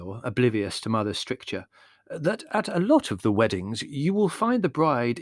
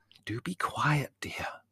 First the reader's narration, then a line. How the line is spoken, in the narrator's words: whispered Mother